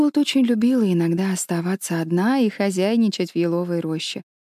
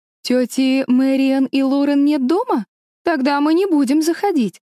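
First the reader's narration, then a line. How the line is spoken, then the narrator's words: Exclaiming woman. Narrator (Russian): воскликнула кузина Марселла Картер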